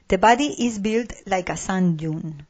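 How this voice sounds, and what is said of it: Weak English pronunciation, non-native accent. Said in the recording (Spanish): “acento inglés, ¿eh? O sea, yo vivo aquí en Gales, pero mi acento inglés eh, deja mucho que desear”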